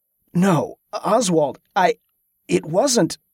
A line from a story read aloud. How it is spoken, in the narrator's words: Tesca stammered